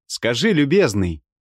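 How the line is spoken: Shouted through window. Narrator (Russian): закричал я ему в окно

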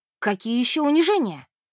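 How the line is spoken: Exclamation. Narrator (Russian): воскликнула Мэри

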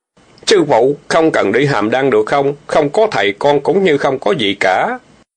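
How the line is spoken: Low, pleading voice. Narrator (Vietnamese): Tiểu Bàng nén không được, hạ giọng nói

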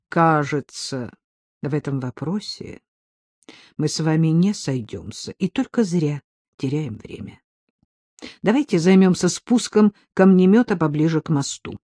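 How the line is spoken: Pointedly calm. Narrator (Russian): подчеркнуто спокойно произнес

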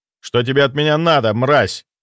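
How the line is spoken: Commanding growl. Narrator (Russian): прорычал, используя тот тон, которым когда-то командовал легионами нежити

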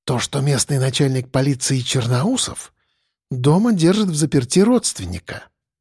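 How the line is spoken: Whisper. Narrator (Russian): прошептала она

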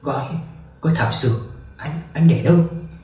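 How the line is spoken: Broken whisper. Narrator (Vietnamese): Lục Lục thì thào đứt quãng

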